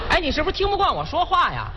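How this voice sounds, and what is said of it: Rural Hebei-sounding accent passed as Beijing. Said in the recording (Chinese): “原谅我说话有点北京口音。...我听你像三河县的。还北京口音啊？”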